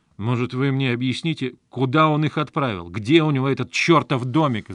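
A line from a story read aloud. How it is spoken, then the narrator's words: Yelled. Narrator (Russian): заорал я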